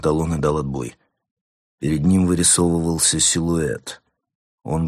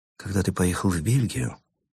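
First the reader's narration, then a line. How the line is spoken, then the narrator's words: Quiet, scribe. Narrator (Russian): тихо произнес писарь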